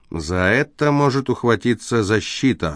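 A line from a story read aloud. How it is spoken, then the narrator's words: Gloomy. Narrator (Russian): мрачно вымолвил Фокс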